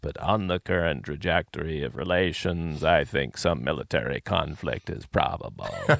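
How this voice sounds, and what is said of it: Dr. Strangelove-style character voice. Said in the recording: “cue, if you will, Dr. Strangelove's voice ... that's not a bad imitation”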